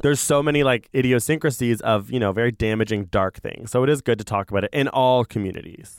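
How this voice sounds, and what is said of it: Strained, sick-sounding voice. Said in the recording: “Oh my gosh, my voice just like I'm like, what virus is this?”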